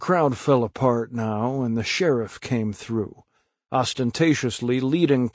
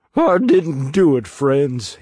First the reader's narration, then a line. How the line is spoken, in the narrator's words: he sobbed